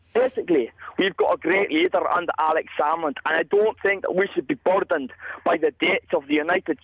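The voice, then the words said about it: Aberdeen Scottish accent. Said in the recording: “I'm from Aberdeen. Can you not hear that in my voice?”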